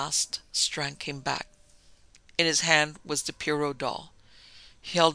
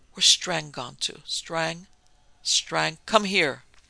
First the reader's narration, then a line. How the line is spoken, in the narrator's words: the prisoner pleaded, whined, and cursed in turn